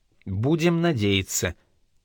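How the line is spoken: Quiet repetition. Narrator (Russian): тихо повторил Джордж

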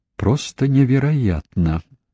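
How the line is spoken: Muttered. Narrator (Russian): пробормотала она

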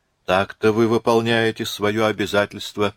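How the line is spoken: Plain. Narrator (Russian): сказала она

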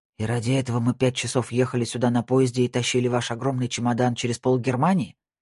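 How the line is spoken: Grumbling. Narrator (Russian): проворчал

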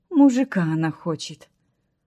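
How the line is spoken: Cook grumbling. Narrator (Russian): проворчала повариха

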